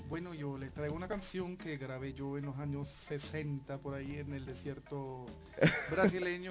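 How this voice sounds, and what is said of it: Slight German accent in Spanish. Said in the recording (Spanish): “es alemán ... Ya le escuchan un poco el acento”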